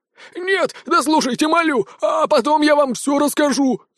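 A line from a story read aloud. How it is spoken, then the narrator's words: Pleading. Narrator (Russian): взмолился тушкан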